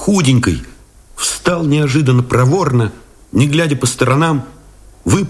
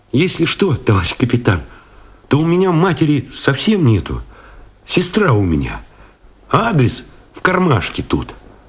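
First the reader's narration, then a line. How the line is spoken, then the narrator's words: Guilty, near-sobbing boyish voice. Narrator (Russian): вздохнул, вроде всхлипнул, по-мальчишески виноват, сказал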